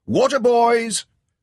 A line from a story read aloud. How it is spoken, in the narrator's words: the shout went around the little square